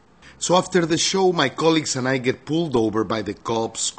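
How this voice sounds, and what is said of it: Mexican-accented English. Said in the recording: “my accent ... An articulate Mexican”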